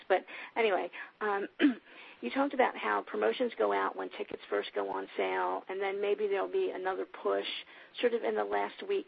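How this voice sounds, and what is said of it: Sick-sounding voice. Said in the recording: “I'm sick right now, so if my voice sounds bad, that's what it is.”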